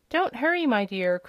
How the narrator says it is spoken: cried Billina

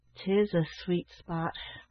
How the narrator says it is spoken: remarked his uncle, in a low, sad tone

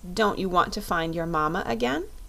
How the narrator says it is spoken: asked the Scarecrow

